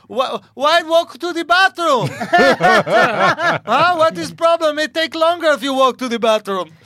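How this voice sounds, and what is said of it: Yelling in a put-on foreign accent. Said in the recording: “she's yelling at me. She got accent. ... She got yelling.”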